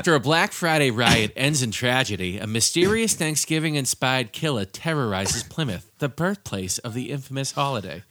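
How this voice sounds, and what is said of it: Put-on accent, Peter Griffin-like. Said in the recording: “With the accent ... We're veering you into sound like Peter Griffin territory.”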